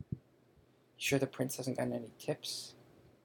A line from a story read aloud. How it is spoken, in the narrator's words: Ron muttered to Harry